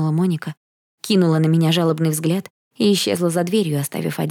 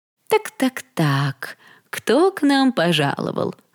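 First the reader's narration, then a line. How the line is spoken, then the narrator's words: Mocking. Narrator (Russian): насмешливо сказала Мередит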